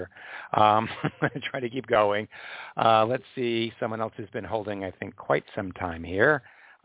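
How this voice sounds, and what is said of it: Hoarse, strained, fading voice. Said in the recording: “As you can hear, I'm losing my voice,”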